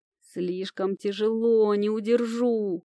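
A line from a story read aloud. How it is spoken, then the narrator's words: Groaning. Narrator (Russian): простонал он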